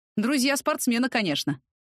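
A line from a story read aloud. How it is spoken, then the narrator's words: Condescending snort. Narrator (Russian): хмыкнул Сашка, свысока взглядывая на непонятливую меня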